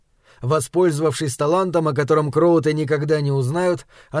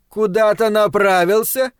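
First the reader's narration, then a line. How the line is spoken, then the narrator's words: Shout. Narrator (Russian): крикнула Ленора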